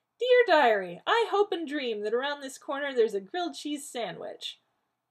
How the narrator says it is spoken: Rodney said in a mocking falsetto

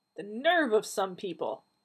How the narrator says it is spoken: Donna snapped

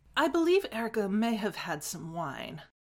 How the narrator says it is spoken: he said in his sickly sweet voice

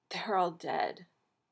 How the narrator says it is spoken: whispered

